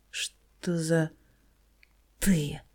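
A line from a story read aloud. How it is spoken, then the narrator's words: Youth breathing through teeth. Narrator (Russian): Сквозь зубы выдыхает парнишка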